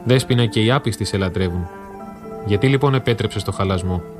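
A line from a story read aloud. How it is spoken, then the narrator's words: Cracked, tearful chanting. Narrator (Greek): με ραγισμένη φωνή που μάταια προσπαθούσε να την κάνει σταθερή και με δακρυσμένα μάτια έψαλε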